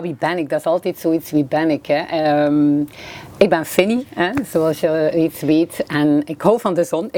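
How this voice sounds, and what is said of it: West Flemish accent from Bruges. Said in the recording (Dutch): “Zoals mijn eh, accent waarschijnlijk vermoedt, ben ik van de West-Vlaanderen, eh, van Brugge.”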